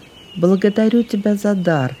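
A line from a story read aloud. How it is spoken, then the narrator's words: Said aloud. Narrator (Russian): сказал он вслух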